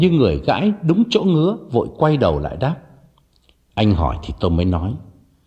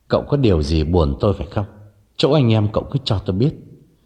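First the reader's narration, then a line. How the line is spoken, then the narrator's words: Trembling, hesitant question. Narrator (Vietnamese): đắn đo một lúc rồi nhịn không được, đành run run hỏi thẳng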